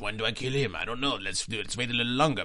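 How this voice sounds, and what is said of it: Put-on French accent. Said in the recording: “Accent, ... that was really ... Good. Yes, I can get by in Paris very well with that accent”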